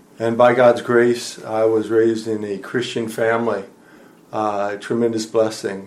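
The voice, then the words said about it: American English accent. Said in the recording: “people can probably tell from your accent that you're originally from the United States”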